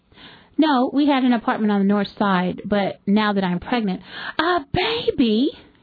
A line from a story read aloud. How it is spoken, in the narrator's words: she squealed